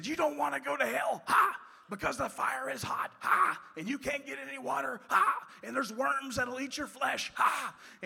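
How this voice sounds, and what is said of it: Shouted fire-and-brimstone preaching. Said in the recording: “he ha'd after every sentence ... he's shouting all this stuff ... he's just shouting this stuff”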